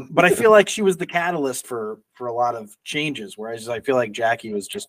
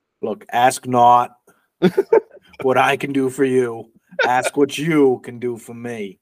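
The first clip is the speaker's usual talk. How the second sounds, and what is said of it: Impression with put-on Southern accent. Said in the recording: “he had a southern accent ... So that's the Southern JFK”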